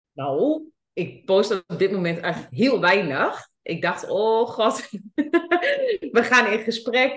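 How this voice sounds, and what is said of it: Twente regional Dutch accent. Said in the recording (Dutch): “mijn Twentse accent”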